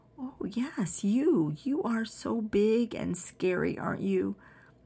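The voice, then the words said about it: Sweet quiet baby voice. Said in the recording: “In my sweet, quiet baby voice,”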